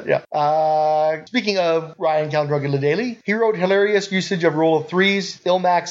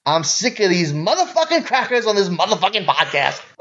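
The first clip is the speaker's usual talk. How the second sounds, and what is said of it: Samuel L. Jackson impression. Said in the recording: “a hilariously offensive impersonation of Samuel L. Jackson ... you did a hilariously offensive impersonation.”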